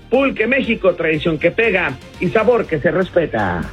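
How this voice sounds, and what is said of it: 1990s radio announcer voice. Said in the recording (Spanish): “Con tu voz de locutor de los 90.”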